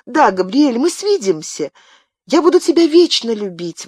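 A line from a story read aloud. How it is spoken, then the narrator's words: Tearful exclamation. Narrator (Russian): воскликнула Диана со слезами на глазах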